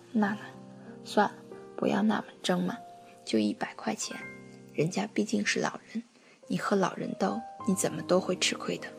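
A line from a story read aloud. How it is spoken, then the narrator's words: Sighing. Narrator (Chinese): 我叹了一口气，说道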